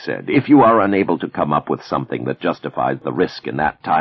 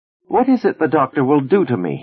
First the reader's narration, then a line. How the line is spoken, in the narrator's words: He asked nervously